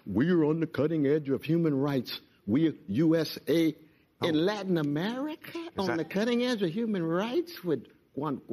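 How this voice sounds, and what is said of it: Impression of a white guy. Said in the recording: “your white guy impression”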